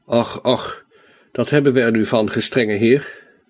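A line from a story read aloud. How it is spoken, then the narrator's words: Weak, plaintive voice. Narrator (Dutch): zei met matte, klagende stem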